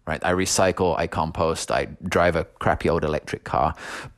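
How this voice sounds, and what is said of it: Non-North Carolina accent. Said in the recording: “As you can probably tell from my accent, this is not a North Carolina accent”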